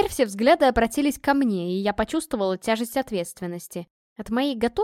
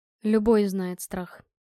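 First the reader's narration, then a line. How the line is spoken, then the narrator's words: Calm objection. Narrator (Russian): спокойно возразил Адриан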